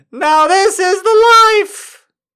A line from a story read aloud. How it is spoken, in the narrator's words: howled